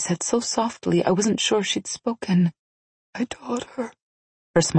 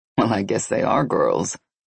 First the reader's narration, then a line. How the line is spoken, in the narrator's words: Nikolai said with a grimace and chuckle